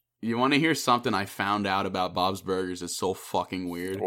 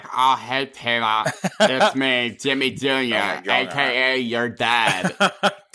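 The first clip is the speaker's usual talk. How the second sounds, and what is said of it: Weird cartoon character voice. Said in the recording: “He's voiced by H. John Benjamin ... doing a fucking weird voice.”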